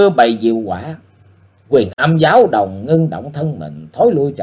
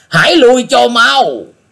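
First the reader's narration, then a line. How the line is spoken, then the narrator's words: Loud shout. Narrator (Vietnamese): Âm Linh đại dương thét lớn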